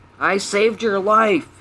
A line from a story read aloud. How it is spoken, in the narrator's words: he yelled angrily